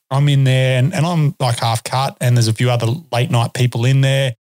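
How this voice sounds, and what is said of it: Australian accent. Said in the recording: “if they hear your Australian accent, they just go nuts”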